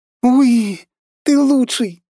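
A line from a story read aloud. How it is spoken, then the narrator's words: Excited squeal. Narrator (Russian): визжала Полина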